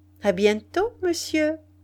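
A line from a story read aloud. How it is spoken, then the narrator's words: Cheerful reply. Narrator (French): Il répondit gaiement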